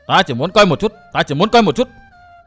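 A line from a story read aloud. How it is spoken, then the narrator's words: Loud shout. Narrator (Vietnamese): Quái phụ, quát lớn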